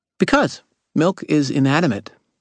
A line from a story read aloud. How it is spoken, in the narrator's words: Maggie said cheerfully